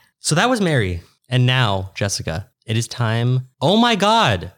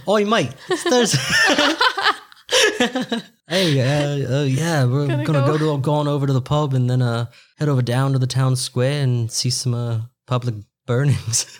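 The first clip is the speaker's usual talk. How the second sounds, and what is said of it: Inconsistent put-on accent, slightly Australian. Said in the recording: “I feel like I bounced around a lot in my accent there. ... A little Australian. There was just a little note.”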